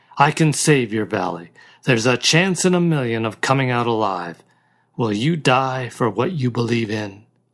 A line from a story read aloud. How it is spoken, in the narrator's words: said harshly